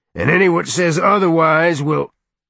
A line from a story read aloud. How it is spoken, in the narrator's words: he roared